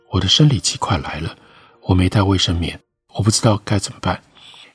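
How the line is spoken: Lowered voice. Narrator (Chinese): 压低声音又说

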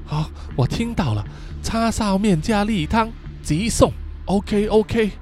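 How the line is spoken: Quiet reply. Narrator (Chinese): 豆皮小声的回答说

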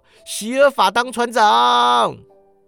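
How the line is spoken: Group shouting. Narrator (Chinese): 他们喊道

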